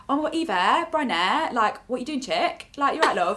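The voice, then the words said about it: Imitated Leicester accent. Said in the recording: “the Leicester accent is fucking hilarious ... People from Leicester, they're like ... it's like proper, it's really hard to do ... It's a very, very, like, funny accent”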